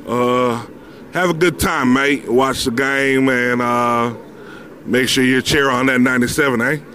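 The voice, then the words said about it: Put-on Australian accent. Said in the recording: “that was definitely Australian ... I'm not good at doing all of them”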